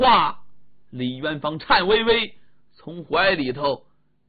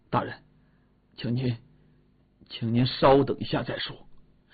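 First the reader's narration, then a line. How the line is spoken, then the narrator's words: Soft, quiet. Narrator (Chinese): 李元芳 轻声地说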